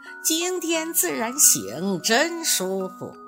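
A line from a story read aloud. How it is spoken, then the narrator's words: Cheerful smiling turtle. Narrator (Chinese): 乌龟…笑眯眯地说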